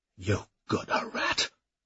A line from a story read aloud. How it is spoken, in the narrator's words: snarled